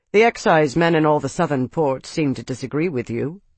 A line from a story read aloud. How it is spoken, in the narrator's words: Deimos said dryly